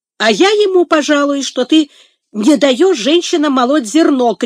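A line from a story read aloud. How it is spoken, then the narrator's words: Shouting. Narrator (Russian): крикнул Сэмбо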